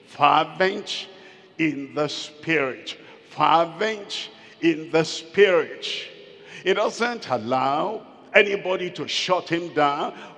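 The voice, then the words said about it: Shouting, urgent preaching. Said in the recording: “Why are you shouting like that? I'm shouting because I wanted you to hear it very well.”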